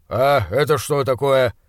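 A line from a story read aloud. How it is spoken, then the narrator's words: Angry question. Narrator (Russian): спросил Бернс, сердито глядя на меня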